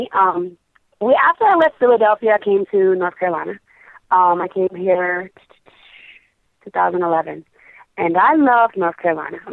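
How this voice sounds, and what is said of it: Off-sounding, allergy-affected voice. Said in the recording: “I got to apologize for the voice. ... the pollen count out here is at an all-time high. So I apologize if I sound crazy”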